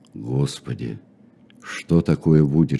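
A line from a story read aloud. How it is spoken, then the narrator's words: Frightened old men whispering. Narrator (Russian): шептали испуганные старики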